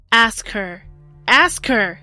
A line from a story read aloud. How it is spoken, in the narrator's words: John bellowed